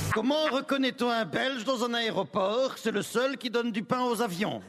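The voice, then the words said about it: Put-on Belgian French accent. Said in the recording (French): “pourquoi les dis-tu avec l'accent belge”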